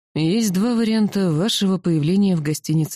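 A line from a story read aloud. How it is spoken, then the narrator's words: Gloomy. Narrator (Russian): мрачно произнес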